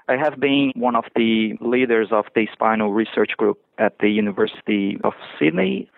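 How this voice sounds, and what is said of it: Brazilian accent. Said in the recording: “the Brazilian accent”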